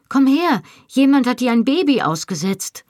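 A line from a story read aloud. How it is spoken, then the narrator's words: Calling out. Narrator (German): rief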